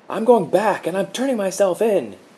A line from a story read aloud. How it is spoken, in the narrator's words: yelled